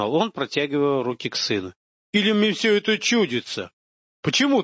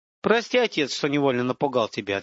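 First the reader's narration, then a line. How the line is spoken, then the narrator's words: Plain. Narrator (Russian): ответил он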